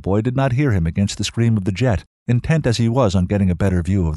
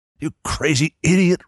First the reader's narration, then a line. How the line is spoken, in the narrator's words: Ross grunted in his ear